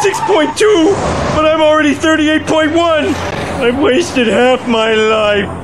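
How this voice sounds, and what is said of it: Midwestern American accent, ranting. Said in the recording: “His Midwest accent and rants”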